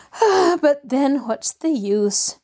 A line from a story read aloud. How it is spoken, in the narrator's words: she sighed